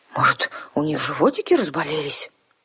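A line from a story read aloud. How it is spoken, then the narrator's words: Bewildered suggestion. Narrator (Russian): растерянно предположила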